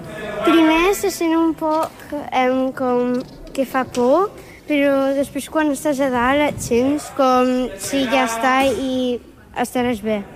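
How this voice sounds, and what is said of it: Catalan with English-sounding accent. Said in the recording (Catalan): “el teu accent, eh? El teu accent. Parlant en català, però com era anglès, el teu accent va canviar una mica ... català-anglès, eh?”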